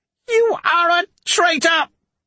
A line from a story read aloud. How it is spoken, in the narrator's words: Petrigar shouted